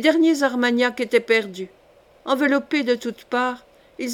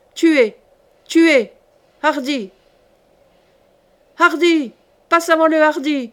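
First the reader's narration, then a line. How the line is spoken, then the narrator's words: Thundering clamor. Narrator (French): tonna une clameur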